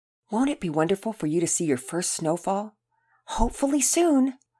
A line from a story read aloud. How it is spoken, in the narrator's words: She would sweetly whisper in their sweet little ears